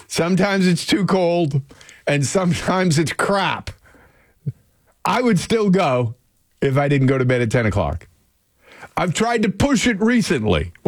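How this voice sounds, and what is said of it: Loud, yelling delivery. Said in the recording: “Why am I yelling?”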